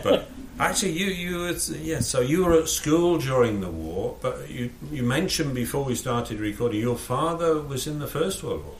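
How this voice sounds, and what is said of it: Yorkshire English accent. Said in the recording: “I came from Yorkshire ... I was just wondering about your accent, you see. I knew it wasn't German.”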